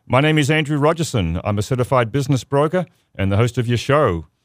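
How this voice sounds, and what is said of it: Australian accent. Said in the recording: “a funny accent, which is Australian”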